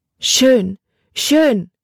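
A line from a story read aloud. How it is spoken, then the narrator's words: Call with strong accent. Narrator (German): rief sie mit einem starken Akzent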